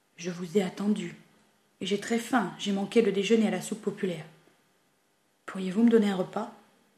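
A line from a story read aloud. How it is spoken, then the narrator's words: Grave tone. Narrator (French): Il dit d'un ton grave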